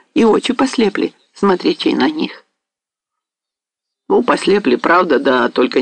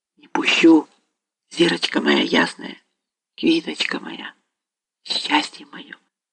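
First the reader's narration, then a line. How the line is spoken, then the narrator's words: Whispering. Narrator (Russian): шептал Остап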